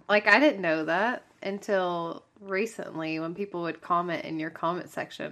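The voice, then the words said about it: Southern Texan accent. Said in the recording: “People always say that you have a very southern voice ... I guess I do have a Texan accent”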